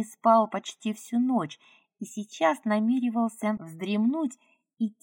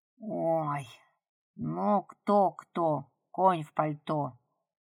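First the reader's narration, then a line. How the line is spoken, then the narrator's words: Weary wolf. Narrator (Russian): устало ответил волк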